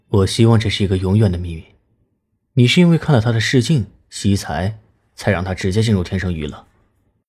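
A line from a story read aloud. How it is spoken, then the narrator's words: Calm, detached. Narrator (Chinese): 南离川淡淡的说道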